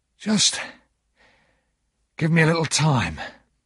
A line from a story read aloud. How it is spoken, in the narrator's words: said in his rough voice